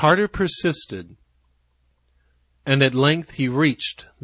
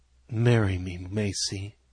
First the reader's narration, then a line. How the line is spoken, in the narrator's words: he whispered softly